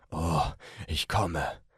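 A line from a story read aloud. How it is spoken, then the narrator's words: Man moaning. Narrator (German): stöhnte er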